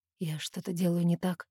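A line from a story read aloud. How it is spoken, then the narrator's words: Quiet question. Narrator (Russian): тихо спрашивает он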